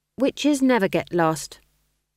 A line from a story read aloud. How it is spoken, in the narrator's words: said McGrath firmly